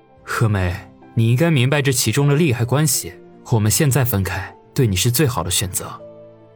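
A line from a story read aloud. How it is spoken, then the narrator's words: Low, grave voice. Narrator (Chinese): 他沉声的说道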